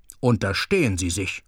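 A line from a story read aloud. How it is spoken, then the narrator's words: Stern. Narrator (German): sagte Tobler streng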